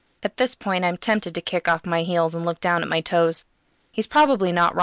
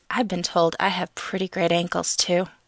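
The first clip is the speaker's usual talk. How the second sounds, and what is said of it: Seductive, sultry voice. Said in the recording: “I put on a seductive voice.”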